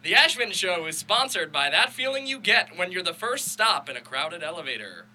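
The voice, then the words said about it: Reads in a sponsor-ad announcer voice. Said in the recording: “In your best sponsorship voice.”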